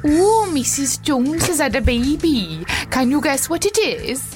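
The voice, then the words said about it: Put-on Welsh accent. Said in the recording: “Can you do a Welsh accent?”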